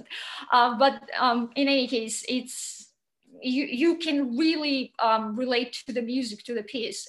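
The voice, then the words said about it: Non-native English accent. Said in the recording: “Sorry for my accent.”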